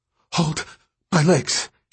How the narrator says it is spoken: she gasped

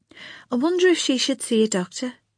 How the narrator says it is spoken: the matron said in a thoughtful tone

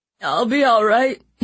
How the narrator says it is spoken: he groaned, clutching his stomach

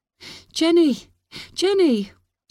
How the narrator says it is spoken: she shouted desperately

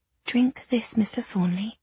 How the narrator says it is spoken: I said gently

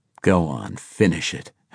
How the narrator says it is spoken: Harris growled

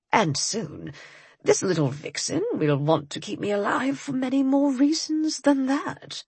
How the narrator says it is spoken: he all but purred

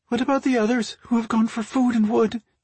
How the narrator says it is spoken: a young girl asked in a trembling voice

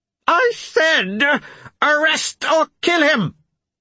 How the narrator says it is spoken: Petrogar barked

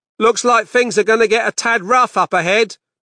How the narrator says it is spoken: Dave shouted back from the front of the bus

